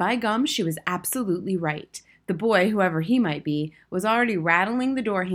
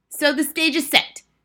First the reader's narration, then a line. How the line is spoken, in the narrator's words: shouted the Grand High Witch